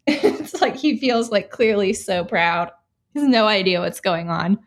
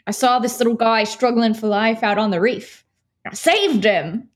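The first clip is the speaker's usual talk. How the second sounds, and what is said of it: Australian accent impression. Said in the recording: “that accent. It was really good. ... I'm very bad at Australian accents. ... That was good.”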